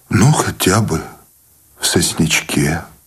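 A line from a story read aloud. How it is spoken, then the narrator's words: Trembling voice. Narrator (Russian): дрогнувшим голосом согласился Сущеня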